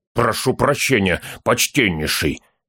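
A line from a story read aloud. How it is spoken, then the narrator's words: Through gritted teeth. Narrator (Russian): процедил сквозь зубы Торин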